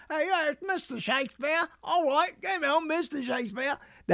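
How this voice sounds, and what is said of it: Mocking put-on British accent. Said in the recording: “That's a mocking British accent. ... I don't know how to speak exactly the way they speak ... So when I do it, it sounds like I'm mocking.”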